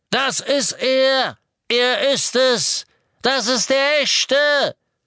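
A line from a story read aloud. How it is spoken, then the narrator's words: Hooded figure shouting over engine. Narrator (German): Der Ruf des kapuzten, vermummten Todessers drang sogar über das Donnern des Motorradmotors hinweg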